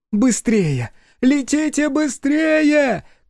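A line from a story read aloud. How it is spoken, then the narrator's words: Shouting into night. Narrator (Russian): кричала в ночь Гостан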